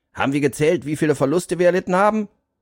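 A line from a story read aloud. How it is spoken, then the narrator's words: Calling to the group. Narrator (German): rief er in die Runde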